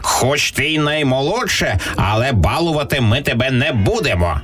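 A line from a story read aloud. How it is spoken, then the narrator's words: Stern rooster. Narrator (Ukrainian): суворо сказав півень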